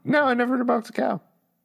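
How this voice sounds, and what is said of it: Voice goes unusually high. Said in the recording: “my voice go so high”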